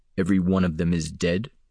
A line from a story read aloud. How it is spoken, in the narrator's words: Damon asked softly